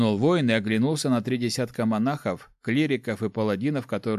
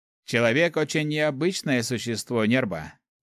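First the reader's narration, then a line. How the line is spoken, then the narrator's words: Amused snort. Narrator (Russian): хмыкнул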